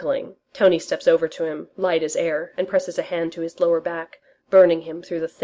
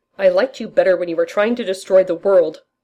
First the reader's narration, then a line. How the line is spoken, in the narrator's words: Roger says loudly